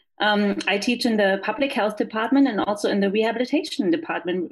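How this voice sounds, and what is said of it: German accent. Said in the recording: “as you can tell from my accent, I am not from here. I'm from Germany.”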